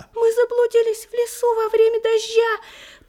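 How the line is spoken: Faint squeak, small bird. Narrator (Russian): пропищал еле-еле один из щеглят

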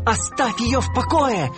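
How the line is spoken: Shout. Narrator (Russian): закричал он

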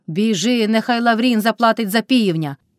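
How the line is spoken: Shouted right into ear. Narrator (Ukrainian): крикнула Мотря під самим вухом у Карпа

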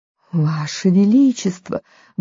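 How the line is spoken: Duchess muttering. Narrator (Russian): бормотала герцогиня

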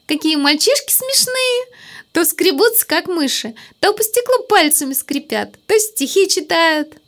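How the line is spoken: Giggling speech. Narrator (Russian): Леночка стала хихикать и говорит

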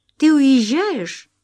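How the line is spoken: Joyful question. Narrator (Russian): спросила она радостно

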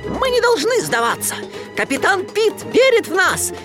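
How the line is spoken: Shouting. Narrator (Russian): крикнул Микки

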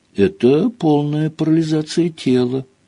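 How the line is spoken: Sad answer. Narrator (Russian): грустно ответила Гермиона

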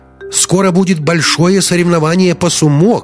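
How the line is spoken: Shout. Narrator (Russian): крикнул режиссер

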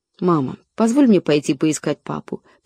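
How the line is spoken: Whisper. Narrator (Russian): прошептала Лора

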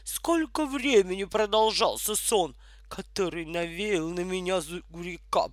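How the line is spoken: Muttered. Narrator (Russian): пробурчала она

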